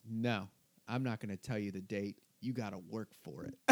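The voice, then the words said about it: Imitates another person's voice. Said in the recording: “this is a great impression”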